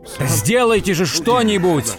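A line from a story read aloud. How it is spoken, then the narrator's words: Yelling. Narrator (Russian): вопил он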